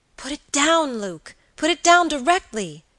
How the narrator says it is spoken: cried the girl with a look of terror

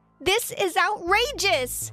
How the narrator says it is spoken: I yelled out

